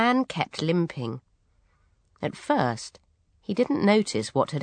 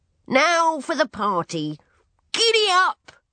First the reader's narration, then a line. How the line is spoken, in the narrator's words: she cried